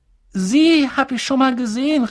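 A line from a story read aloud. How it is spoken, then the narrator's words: Calling out. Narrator (German): rief Harry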